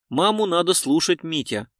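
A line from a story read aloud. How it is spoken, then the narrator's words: Plain. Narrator (Russian): сказала Элеонора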